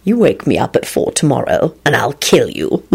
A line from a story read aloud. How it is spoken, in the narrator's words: Lupin snarled